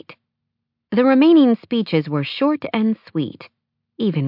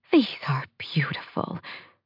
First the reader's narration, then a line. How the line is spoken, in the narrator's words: Victoria murmured